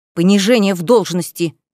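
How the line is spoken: Hiss. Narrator (Russian): зашипела

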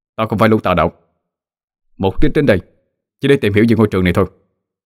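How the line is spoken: Harsh, stressed explaining. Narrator (Vietnamese): Cậu gằn giọng giải thích

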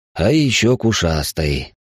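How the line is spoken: Sighed. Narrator (Russian): вздохнул я

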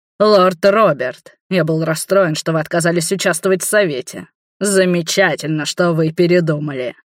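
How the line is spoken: Booming voice. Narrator (Russian): прогремел Леангард

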